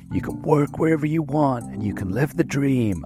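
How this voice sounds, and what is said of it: Put-on American accent. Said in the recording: “I don't know why I had to do an American accent there.”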